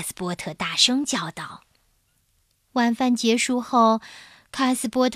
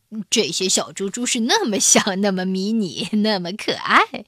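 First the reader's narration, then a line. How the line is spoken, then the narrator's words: Smiling. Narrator (Chinese): 帕特叔叔……微笑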